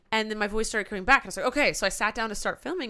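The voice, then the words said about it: Hoarse, recovering voice. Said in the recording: “I lost my voice ... since it's still there. You can still hear it. My throat hurts”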